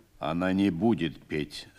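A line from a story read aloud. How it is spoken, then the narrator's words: Calm. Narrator (Russian): спокойно сказал командир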